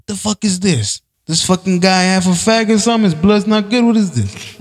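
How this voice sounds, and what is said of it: Italian-accented character voice. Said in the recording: “Wonderful impersonation of an Italian mosquito”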